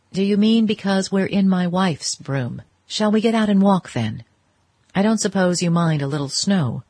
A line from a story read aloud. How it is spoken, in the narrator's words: She laughed again, more gently